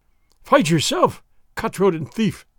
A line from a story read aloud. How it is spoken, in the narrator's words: the exasperated sergeant cried